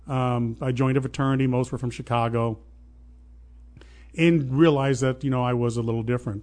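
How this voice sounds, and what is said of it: Southern Illinois rural accent. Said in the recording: “You can still hear my voice, a southern drawl. It's really not even a southern drawl. It's more ... of a hick accent. ... It's just an accent”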